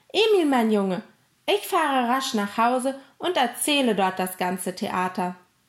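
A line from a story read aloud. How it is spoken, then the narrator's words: Calling out. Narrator (German): rief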